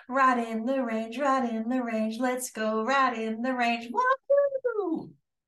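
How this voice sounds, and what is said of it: Singing in falsetto. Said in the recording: “I love that falsetto.”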